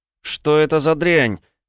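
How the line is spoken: Yelling. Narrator (Russian): Заорал я

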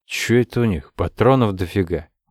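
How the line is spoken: Grumbling mutter. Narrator (Russian): буркнул Казаков

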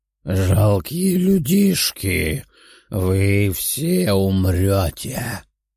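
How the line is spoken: Skeleton rasping. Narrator (Russian): прохрипел скелет

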